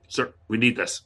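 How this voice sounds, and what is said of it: Stern military Marine-style voice. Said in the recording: “put on my best Marine voice.”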